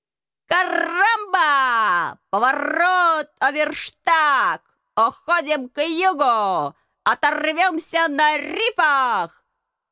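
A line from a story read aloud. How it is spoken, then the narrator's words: Hoarse squawking parrot. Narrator (Russian): хрипло вопил попугай, с позором покидая место боя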